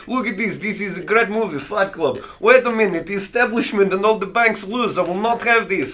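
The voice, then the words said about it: Put-on Russian accent. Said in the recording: “I can't do an Asian accent, evidently. But I'll do it as Russian”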